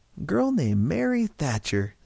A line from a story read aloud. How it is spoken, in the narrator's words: Silva said cheerfully